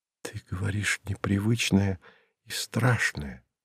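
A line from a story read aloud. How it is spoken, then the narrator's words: Whispered. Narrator (Russian): прошептала она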